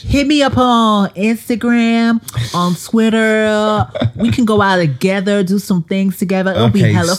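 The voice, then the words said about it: Bad put-on American accent. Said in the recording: “Stop this awful American accent.”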